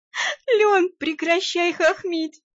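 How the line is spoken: Moaning through laughter. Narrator (Russian): простонала я, корчась от смеха

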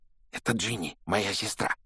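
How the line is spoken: Whisper. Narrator (Russian): шепнул Рон Гарри

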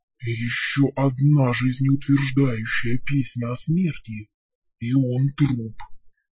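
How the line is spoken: Gloomy, through gritted teeth. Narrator (Russian): мрачно процедил Вал

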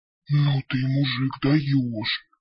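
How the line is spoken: Surprised exhale. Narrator (Russian): удивленно выдохнул тролль

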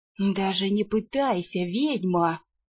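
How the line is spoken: Gloating triumphant hiss. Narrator (Russian): со злорадным торжеством прошипел разбойник

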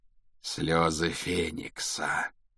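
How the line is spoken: Drawn-out, thoughtful. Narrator (Russian): протянул Реддл в задумчивости

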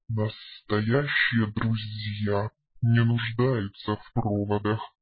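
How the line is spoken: Wry snort. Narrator (Russian): хмыкнул дракон

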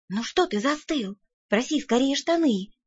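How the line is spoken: Whispered. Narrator (Russian): шепнула я

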